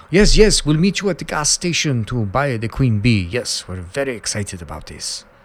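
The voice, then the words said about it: Poor put-on Russian accent. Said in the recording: “a shitty Russian accent”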